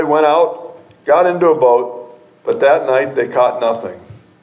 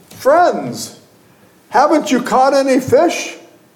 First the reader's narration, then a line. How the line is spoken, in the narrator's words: He called out to them